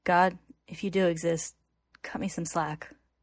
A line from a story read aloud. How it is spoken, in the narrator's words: he says quietly, tears beginning to stream down his face